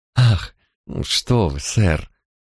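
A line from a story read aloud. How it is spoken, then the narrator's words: Pleased embarrassed mumble. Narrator (Russian): Круглое лицо Джоан вспыхнуло от удовольствия, смущенно пробормотала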